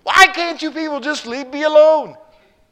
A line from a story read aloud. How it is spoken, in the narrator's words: he began crying and screaming